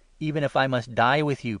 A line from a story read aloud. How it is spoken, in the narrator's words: Peter exclaimed